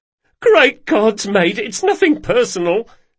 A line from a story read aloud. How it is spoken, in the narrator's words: sobbed the man